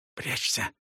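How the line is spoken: Boy's whisper. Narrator (Russian): прошептал мальчик

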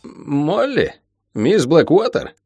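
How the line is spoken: Bewildered repeating. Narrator (Russian): растерянно повторял Билл

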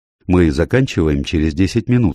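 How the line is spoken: Plain. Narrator (Russian): сказал он

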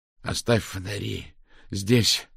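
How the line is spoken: Breathed out. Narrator (Russian): выдохнул Мау

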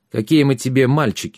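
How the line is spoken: Deliberately rough. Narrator (Russian): сказал он нарочито грубо

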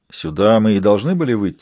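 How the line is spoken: Plain. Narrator (Russian): спросил его тот

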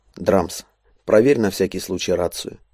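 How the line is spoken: Quiet. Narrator (Russian): негромко произнес он

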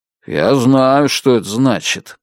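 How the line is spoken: Grumbling. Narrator (Russian): пробурчал он

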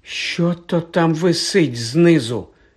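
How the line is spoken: Trembling question. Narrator (Ukrainian): запитав тремтячим голосом Рон

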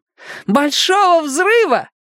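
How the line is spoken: Triumphant yelling. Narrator (Russian): торжествующе вопить

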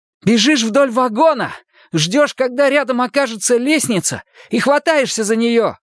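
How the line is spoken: Shouted into ear. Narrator (Russian): прокричал он ей в ухо

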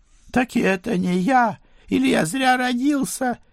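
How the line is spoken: Tearful squeal. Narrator (Russian): Едва не плача взвизгнул он

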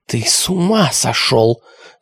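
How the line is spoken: Hissing. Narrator (Russian): зашипела Алиса

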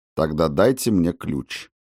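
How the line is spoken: Calm request. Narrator (Russian): спокойно попросил Макферлин

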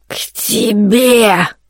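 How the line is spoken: Wild, vicious hiss. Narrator (Russian): раздалось сипение, такое дикое, злобное

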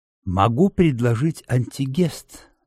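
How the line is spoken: Delicate whisper. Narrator (Russian): говорит Ахиллес деликатным шепотом

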